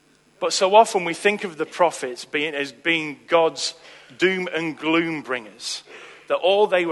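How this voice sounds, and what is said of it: Usual voice. Nothing is said of it.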